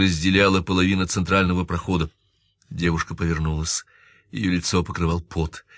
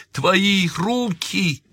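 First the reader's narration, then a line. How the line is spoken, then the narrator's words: Desperate shout. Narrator (Russian): в отчаянии выкрикнул Джой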